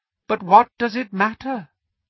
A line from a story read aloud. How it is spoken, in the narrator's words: He said softly